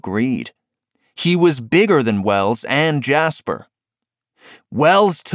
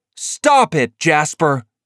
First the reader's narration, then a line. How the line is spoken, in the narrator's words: Wells shouted